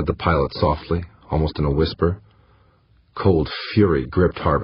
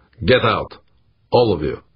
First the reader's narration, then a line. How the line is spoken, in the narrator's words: he said, his voice hard as ice